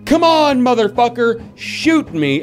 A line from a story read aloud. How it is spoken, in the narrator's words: yelling